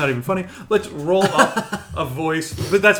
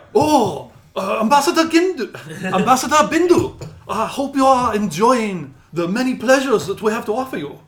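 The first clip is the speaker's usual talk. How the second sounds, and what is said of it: Stereotyped movie-style foreign accent. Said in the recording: “The really super racist. ... The ones who sound ... I'm doing this voice. ... that's what they sound like in the fucking movies.”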